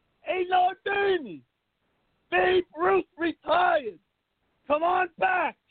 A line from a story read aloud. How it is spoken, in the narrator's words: cups his mouth with his hands, screams out